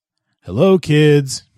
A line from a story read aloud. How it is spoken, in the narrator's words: he said merrily